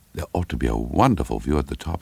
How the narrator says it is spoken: said Caroline firmly to herself

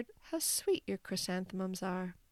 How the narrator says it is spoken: murmured

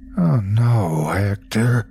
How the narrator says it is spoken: moaned

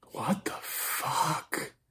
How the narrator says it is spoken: whispered

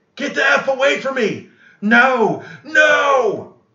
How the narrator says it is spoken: And right before he died, he screamed

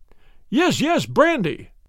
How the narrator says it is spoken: he cried

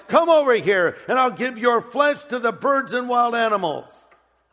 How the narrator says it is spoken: Goliath yelled

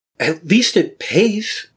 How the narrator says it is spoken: her voice wavers, growing more upset and with a desperate edge

